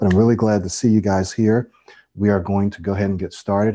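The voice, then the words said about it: Nasal voice with a cold. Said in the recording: “excuse the sound of my voice. I have a cold ... I may sound a little nasally, a little more so than usual. You may hear me sniffle”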